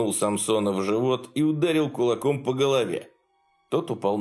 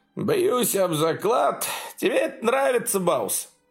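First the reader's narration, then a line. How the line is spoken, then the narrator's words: Laughing. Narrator (Russian): Томатный Джо рассмеялся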